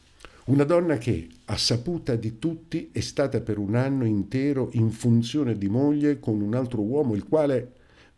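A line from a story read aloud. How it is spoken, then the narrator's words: Angry exclamation. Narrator (Italian): esclamai irosamente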